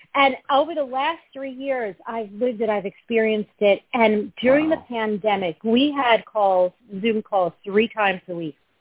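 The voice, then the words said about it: New York accent. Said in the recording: “I'm a New Yorker, and I'm a little, in case you can't tell by my accent”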